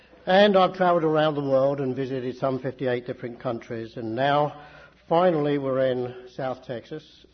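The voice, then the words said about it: Welsh accent. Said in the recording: “And I'm Welsh. ... Where did you get an accent like that from? ... You all ain't from around here, are you?”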